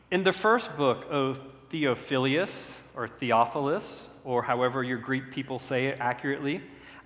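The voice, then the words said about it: Southern US accent. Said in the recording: “I'm going to read this from my southern accent”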